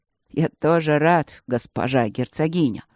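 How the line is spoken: Solemn. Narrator (Russian): сказал он торжественно

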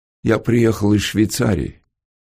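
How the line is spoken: Gloomy. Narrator (Russian): мрачно сказал Антон

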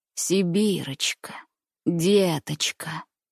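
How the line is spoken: Old man's hoarse groan. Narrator (Russian): послышалось хриплым стоном из груди дедушки

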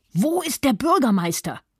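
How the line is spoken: Man shouting. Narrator (German): schrie ein zweiter der SA-Leute

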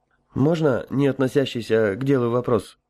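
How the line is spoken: Somewhat unsure question. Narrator (Russian): несколько неуверенно спросил Михаил

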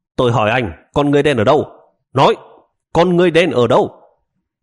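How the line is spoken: Barked question in Japanese. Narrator (Vietnamese): Cảnh sát lại quát hỏi bằng tiếng Nhật

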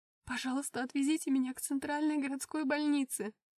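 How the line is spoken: Pleading. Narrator (Russian): взмолилась я

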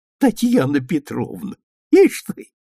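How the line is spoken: Laughing to tears. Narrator (Russian): старушка смеялась до слез, повторяя

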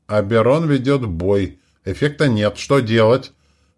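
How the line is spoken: Desperate exclamation. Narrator (Russian): воскликнул Бокин, и в его тоне слышалось отчаяние

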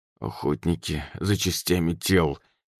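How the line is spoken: Through gritted teeth. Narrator (Russian): сквозь зубы ответил андроид

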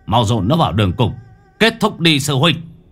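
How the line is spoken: Harsh growl. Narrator (Vietnamese): Bác Tường lúc này gằn giọng

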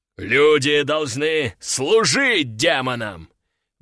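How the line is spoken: Furious roar. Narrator (Russian): взревел взбешенный здоровяк

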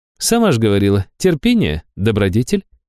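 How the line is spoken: Mocking sing-song. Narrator (Russian): насмешливо пропела Нера

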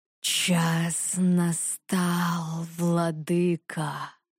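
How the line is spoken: Serpent's hiss. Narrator (Russian): прошипел змей

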